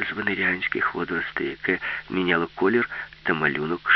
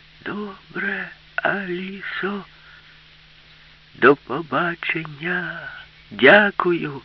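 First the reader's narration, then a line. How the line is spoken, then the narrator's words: Shouted. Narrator (Ukrainian): крикнула йому Аліса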